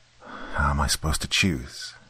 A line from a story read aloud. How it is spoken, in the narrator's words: I asked aloud in a quiet voice to no one in particular